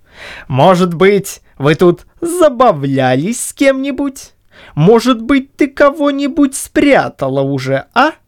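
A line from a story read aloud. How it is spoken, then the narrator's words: Delighted triumphant laughter. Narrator (Russian): восхищенный таким своим замечанием, Чуб засмеялся, внутренне торжествуя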